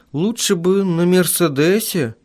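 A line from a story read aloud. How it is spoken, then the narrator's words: Uncertain young woman. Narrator (Russian): Неуверенно произнесла девушка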